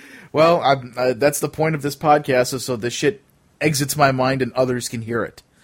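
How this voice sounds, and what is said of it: Usual voice. Nothing is said of it.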